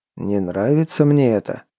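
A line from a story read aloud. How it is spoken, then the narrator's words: Mutter. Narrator (Russian): пробормотал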